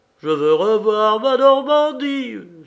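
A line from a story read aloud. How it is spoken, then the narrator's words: Exclaimed. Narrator (French): s'écria M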